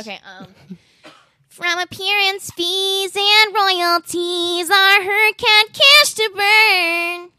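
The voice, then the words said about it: Nasal childlike singing voice. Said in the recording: “singing the voice that I was when I was a child ... that's a pretty good imitation ... Of it ... Literally exactly what I sounded like ... They asked her to use her most nasal voice possible”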